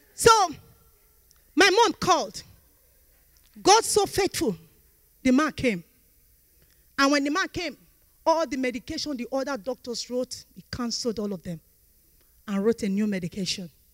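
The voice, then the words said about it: African (Nigerian) accent. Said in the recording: “that African accent. I'm a typical Nigerian.”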